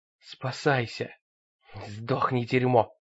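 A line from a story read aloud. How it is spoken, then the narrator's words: Muttered. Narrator (Russian): пробормотала она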